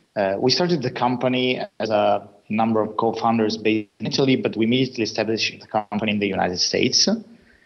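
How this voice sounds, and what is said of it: Italian accent. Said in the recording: “as you can tell from my name and accent, I'm Italian.”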